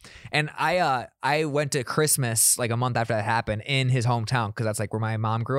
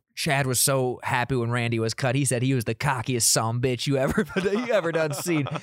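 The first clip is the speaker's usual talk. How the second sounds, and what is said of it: Put-on small-town South Dakota accent. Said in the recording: “That's my Mitchell South Dakota impression.”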